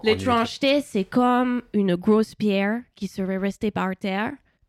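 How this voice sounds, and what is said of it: Imitates another person's accent. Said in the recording (French): “je ne sais pas si je vous le fais avec son accent”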